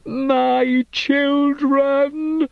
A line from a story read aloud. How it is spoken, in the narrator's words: she screamed